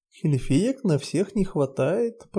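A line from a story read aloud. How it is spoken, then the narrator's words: Purring. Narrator (Russian): промурлыкал Тель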